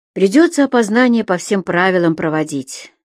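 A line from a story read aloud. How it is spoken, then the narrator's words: Bored voice. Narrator (Russian): скучным голосом сообщил ему майор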